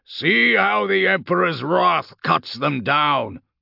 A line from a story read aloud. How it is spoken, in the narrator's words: Castor bellowed to the Astra Militarum infantry squads advancing out between their tanks